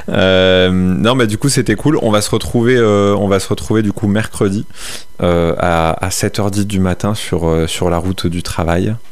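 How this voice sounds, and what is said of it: Put-on Marseille French accent. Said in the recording (French): “Pourquoi j'ai pris un accent marseillais ... T'aimes trop cet accent.”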